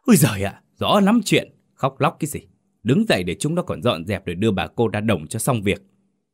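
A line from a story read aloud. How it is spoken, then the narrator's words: Harsh shout. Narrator (Vietnamese): Ông gằn giọng quát vợ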